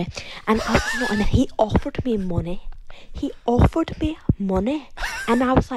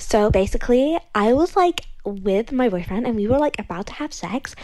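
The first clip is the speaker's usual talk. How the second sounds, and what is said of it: Put-on fake accent. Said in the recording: “I am using a fake accent as I don't want to get recognized ... I think I just lost my accent”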